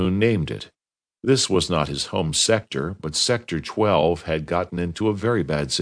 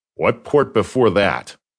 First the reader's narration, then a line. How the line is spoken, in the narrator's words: The voice from the communicator said sharply